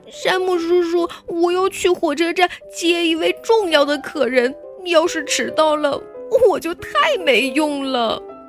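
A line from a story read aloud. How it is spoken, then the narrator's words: Crying. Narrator (Chinese): 卡尔哭着说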